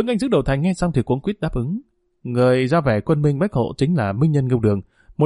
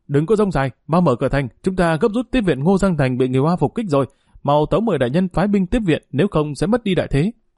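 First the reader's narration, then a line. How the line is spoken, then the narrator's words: Loud shout from below. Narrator (Vietnamese): Dưới thành có một người như bách hộ bộ hét lớn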